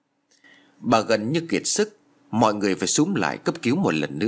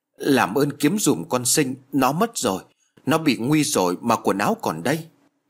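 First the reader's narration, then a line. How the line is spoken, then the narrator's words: Wailing louder. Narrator (Vietnamese): bà lại gào to hơn nữa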